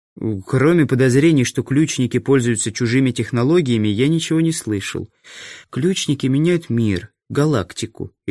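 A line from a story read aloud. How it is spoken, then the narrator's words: Sighing. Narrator (Russian): Ирина вздохнула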